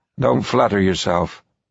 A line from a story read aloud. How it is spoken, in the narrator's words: Evans said in a tight, flat voice